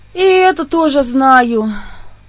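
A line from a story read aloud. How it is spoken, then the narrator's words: Sigh. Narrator (Russian): вздохнула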